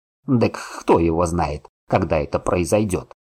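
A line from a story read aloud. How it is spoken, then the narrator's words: Old man's snort. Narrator (Russian): фыркнул дед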